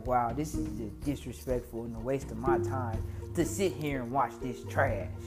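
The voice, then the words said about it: Imitates another person's voice. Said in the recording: “My best Stephen A impression”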